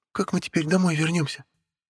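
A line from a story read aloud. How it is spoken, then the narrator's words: Timid question. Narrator (Russian): робко спросила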